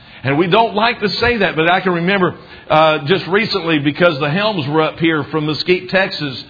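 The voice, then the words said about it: Southern US accent with twang. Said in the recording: “my southern accent being just a little bit stronger ... I'm not trying to speak with more of a twang”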